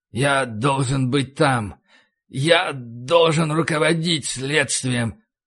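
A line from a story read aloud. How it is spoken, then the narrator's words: Creaky, grating voice. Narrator (Russian): проскрипел Макнамара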